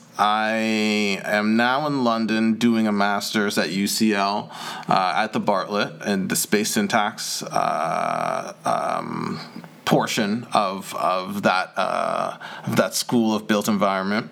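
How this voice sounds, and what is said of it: Canadian accent. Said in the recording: “If my accent didn't give it away already, I'm Canadian.”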